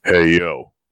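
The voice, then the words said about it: Imitates another person's voice. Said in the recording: “my best impression... your Scott Hall's pretty good”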